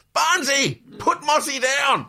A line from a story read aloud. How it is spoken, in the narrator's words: yelling out the kitchen